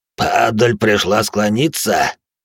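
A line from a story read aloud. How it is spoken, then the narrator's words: Growled. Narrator (Russian): прорычал серебряный Танаан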